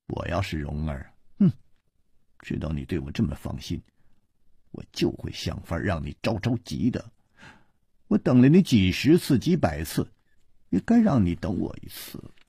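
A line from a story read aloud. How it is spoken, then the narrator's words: Cold sneer. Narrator (Chinese): 他撇了撇嘴冷笑着说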